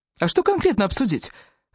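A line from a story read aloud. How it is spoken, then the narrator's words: Sharp question. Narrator (Russian): резко спросил Раф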